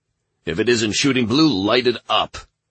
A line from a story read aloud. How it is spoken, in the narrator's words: Michael barked